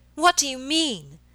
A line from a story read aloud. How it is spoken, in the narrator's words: she cried suddenly after a pause of some moments